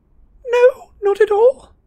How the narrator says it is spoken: squeaked Hermione

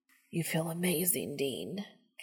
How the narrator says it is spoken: Castiel hisses

